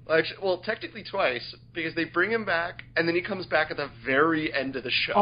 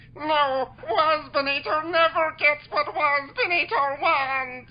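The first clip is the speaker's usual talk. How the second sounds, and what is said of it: Good impression of a cartoon character. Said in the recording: “That's a pretty good impression”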